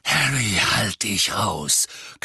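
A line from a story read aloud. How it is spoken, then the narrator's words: Growling. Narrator (German): knurrte Sirius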